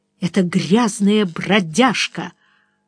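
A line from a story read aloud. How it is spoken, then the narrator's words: Forced out, near tears. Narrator (Russian): Флоренс повернула лицо, чтобы спрятать слезы в глазах, и выдавила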